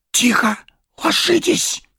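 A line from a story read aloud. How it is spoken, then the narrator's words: Hissed whispered command. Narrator (Russian): свистящим шепотом приказал Арагорн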